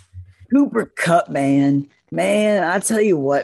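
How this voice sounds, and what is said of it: Imitates another person's voice. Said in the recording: “do a good Jon Gruden impression? ... That's good. No, that was that was good. I can give you a six and a half. Okay, that's pretty good.”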